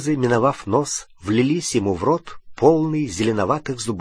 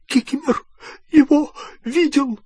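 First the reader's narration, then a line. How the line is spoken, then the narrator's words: Hoarse wheeze. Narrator (Russian): просипел эльф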